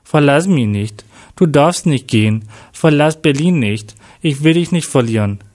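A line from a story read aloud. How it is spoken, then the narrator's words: Said sadly. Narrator (German): sagte Jack traurig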